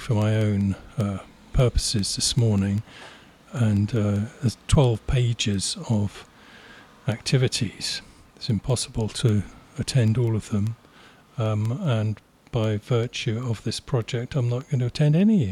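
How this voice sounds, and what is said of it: Fantastic radio voice. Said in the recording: “You've got the best radio voice. It's fantastic.”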